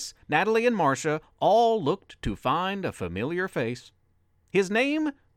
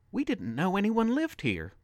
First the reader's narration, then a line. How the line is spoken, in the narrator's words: Natalie pleaded